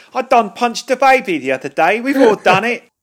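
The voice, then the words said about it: Put-on generic London accent. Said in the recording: “That was just an impression of a generic London man.”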